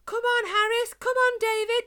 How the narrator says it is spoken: she shouted, her eyes nearly popping out of her head

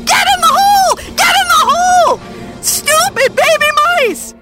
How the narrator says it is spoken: yelling

